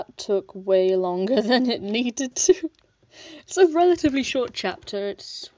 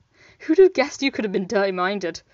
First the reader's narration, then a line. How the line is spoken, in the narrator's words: Patton laughed again